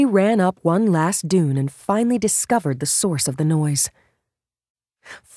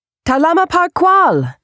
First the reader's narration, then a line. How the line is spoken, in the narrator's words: she shouted in the Tito's native language